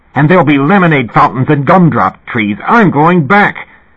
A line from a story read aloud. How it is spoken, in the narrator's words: Kevin said savagely